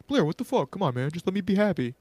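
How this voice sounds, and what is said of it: Imitates a TV character's voice. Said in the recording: “that was spot on impression”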